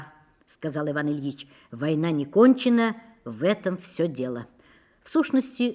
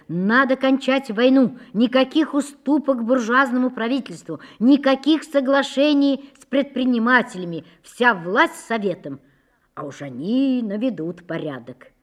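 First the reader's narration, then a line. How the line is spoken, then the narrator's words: Crowd shouting in unison. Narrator (Russian): все в один голос кричали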